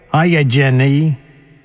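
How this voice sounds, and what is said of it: Forrest Gump character voice. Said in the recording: “my Forrest Gump impression”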